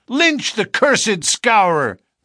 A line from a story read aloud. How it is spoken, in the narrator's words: they cried